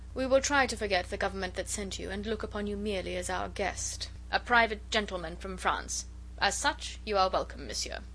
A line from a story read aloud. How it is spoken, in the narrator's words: said his royal Highness coldly